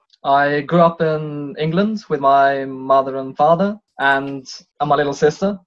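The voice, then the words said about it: British English accent. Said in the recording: “British accent”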